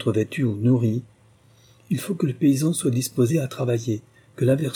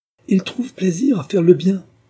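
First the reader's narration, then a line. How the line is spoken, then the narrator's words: Interrupting exclamation. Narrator (French): s'écria Sir William en l'interrompant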